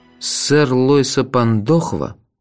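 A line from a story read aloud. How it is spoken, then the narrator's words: Dejected question. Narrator (Russian): упавшим голосом спросил я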